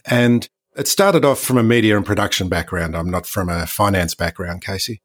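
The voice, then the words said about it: Australian accent. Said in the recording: “as you can hear from the accent, I'm not from North America. I'm an Aussie, Australian.”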